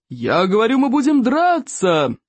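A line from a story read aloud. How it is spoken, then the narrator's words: Yelled. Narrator (Russian): завопил стойк обширный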